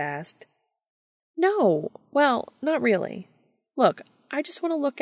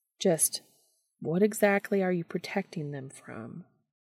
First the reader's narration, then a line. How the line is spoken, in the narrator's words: Dean asked gently